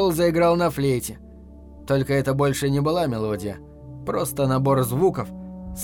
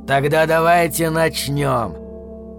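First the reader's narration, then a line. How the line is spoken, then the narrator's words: Wolf's growl. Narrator (Russian): прорычал волк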